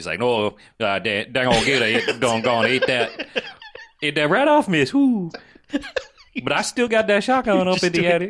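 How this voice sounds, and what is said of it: Put-on Cajun accent. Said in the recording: “Cajun, man. ... That's all you have to do for a Cajun accent. It's just Cajun.”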